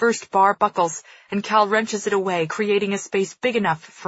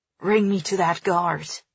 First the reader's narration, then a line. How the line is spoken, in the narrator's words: he growls, betraying some of his old spirit